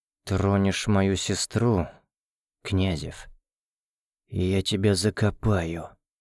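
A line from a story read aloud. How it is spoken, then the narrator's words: Barely audible hiss. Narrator (Russian): едва слышно прошипел Семен Тихонович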